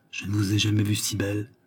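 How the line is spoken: Murmuring. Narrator (French): murmura-t-il

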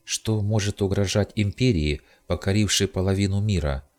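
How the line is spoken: Plain. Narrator (Russian): спросила Агла

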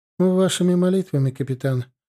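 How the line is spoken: Gloomy. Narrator (Russian): мрачно ответила Богушанская

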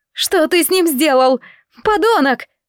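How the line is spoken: Yelling. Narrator (Russian): завопила она

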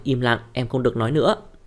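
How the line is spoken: Cold. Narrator (Vietnamese): Thẩm Mặc lạnh lùng nói

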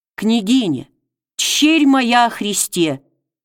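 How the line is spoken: Heartfelt and stern. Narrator (Russian): проникновенно и строго сказал он

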